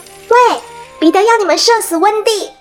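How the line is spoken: Shouting. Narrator (Chinese): 他对着岛上的男孩们大喊

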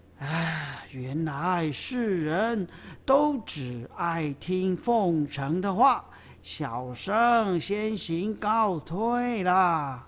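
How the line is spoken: Feigned anger, sighing. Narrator (Chinese): 吴用装出很生气的样子，叹了口气说

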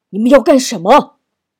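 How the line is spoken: Shout. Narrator (Chinese): 少元这一喊

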